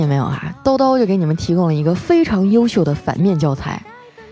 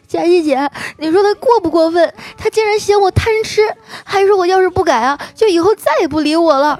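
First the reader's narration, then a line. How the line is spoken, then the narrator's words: Angry tearful complaint. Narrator (Chinese): 丸子气的啊，跟我哭诉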